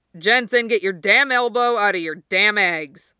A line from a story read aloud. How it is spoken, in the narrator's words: Clay barks